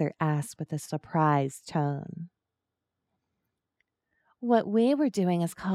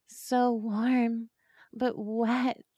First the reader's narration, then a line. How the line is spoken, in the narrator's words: Arthur moans